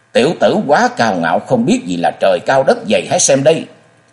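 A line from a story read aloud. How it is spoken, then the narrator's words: Furious roar. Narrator (Vietnamese): Như bị kích nộ, tả hữu nhị vị hộ pháp Thế Vị bật gầm lên giận dữ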